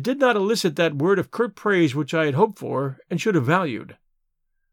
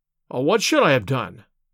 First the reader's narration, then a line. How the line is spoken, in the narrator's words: I cried, with some heat